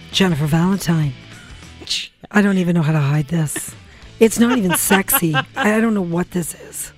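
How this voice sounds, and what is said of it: Damaged voice after losing it. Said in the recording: “I lost my voice completely. ... he brought my voice back, but this is what it came back to.”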